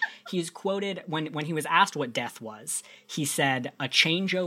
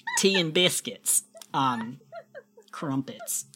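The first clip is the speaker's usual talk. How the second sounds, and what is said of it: Attempted British accent. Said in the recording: “I don't know how to do, a British farm accent”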